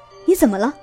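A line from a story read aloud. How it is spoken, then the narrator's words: Plain question. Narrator (Chinese): 孟丽问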